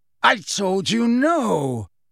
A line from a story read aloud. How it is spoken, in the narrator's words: Lucius Malfoy roared at the woman